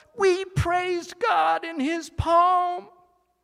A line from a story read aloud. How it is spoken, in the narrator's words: The pebbles yelled